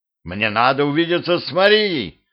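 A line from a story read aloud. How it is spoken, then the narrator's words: Shouting. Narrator (Russian): закричал Петрович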